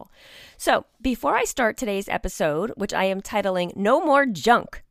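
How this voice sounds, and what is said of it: Raspy voice. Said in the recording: “my voice sounds raspy”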